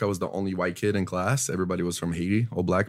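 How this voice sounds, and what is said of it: Speaks with a foreign accent. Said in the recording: “That's why you still have your accent... You still have an accent... I have an accent, bro.”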